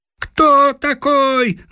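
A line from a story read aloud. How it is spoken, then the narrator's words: Frenzied yell. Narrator (Russian): завопил неистово Коля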